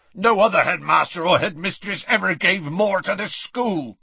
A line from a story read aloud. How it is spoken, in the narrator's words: growled Hagrid